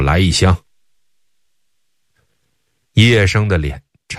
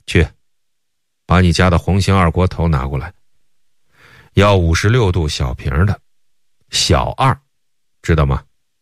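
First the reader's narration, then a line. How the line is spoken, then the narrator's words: Cold. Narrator (Chinese): 英府 冷冷地 说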